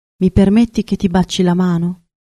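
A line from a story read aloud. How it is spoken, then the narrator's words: Murmured. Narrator (Italian): mormorò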